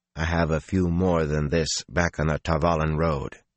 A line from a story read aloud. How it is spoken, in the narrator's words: he said dryly